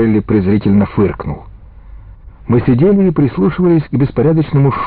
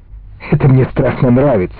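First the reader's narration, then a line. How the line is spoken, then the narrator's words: Exclaimed. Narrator (Russian): воскликнул он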